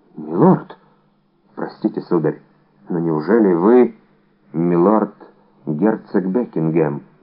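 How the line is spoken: Undertone. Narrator (Russian): вполголоса проговорила госпожа Бонасье

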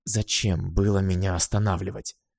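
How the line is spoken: Hissing. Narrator (Russian): прошипела Бастилия

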